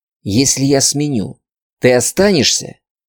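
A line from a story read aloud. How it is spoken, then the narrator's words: Whispered. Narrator (Russian): Прошептала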